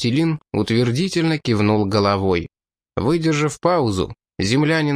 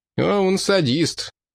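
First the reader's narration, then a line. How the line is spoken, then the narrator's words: Sarcastic remark. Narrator (Russian): язвительно заметил Русич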